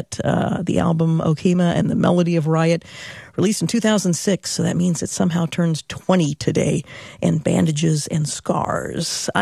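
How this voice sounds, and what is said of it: Rough, strained voice. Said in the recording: “I know I sound a little rough. ... I'm trying to keep the voice as long as I can”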